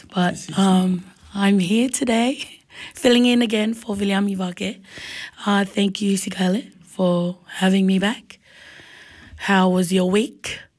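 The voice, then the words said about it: Hoarse, strained voice. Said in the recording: “I've lost my voice”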